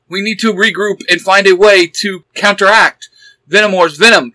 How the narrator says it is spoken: Pink Ranger shouted, her voice determined

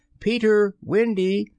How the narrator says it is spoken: shouting

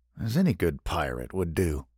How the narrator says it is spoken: Andrew mumbled

